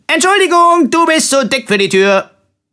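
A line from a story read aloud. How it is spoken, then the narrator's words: Cheerful call. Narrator (German): rief fröhlich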